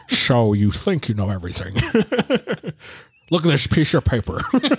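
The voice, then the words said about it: Imitates another person's voice. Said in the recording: “my only Sean Connery impression, is to say piece of paper. ... You say piece of paper like that, that's Sean Connery.”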